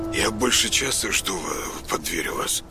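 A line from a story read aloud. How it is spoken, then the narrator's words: Muttered reply. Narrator (Russian): пробормотал он в ответ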